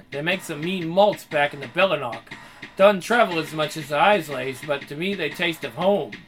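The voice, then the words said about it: Scottish brogue coming through. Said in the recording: “Your accent is slipping again. My brogue, not my fucking accent. ... Scots have brogues, and I, it comes out when I drink.”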